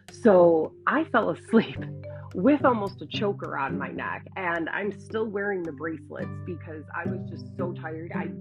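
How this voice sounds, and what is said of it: Strained, failing voice. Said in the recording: “my voice is starting to go, and I don't want to keep coughing in your ears”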